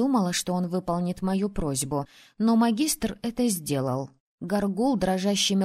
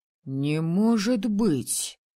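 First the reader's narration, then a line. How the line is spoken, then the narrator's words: Breathless exclamation. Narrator (Russian): выдохнул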